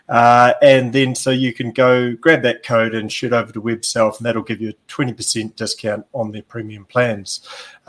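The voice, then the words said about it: New Zealand accent. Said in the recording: “my Kiwi accent”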